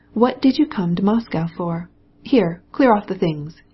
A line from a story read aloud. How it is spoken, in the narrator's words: he cried to the Tartar